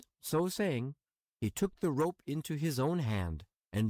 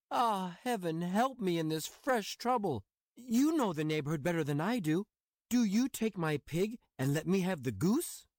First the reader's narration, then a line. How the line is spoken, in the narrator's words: Honest Hans was thunderstruck and exclaimed